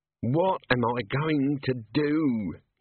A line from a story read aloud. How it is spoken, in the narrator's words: he moaned